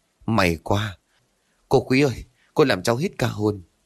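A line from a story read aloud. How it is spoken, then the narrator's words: Panting, stammering. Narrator (Vietnamese): Anh Dũng thở hổn hển, miệng lắp bắp nói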